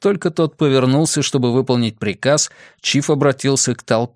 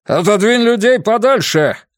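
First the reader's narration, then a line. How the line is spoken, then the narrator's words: Barked. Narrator (Russian): рявкнул Рэндалл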